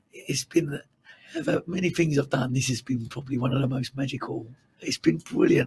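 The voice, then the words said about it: Croaky, strained voice. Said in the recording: “Your voice is even more croaky than it was last night. You are clinging on there.”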